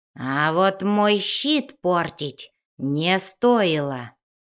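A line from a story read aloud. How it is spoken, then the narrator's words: Growled. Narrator (Russian): прорычал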